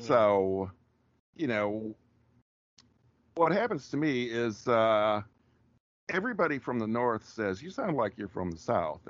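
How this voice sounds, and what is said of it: Rural Wisconsin accent. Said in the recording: “I'm still using it right now, the rural Wisconsin accent. I'm not putting anything on.”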